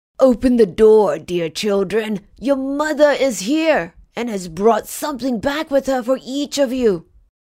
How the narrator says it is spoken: someone knocked at the house door and cried

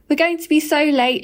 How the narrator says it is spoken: she wailed

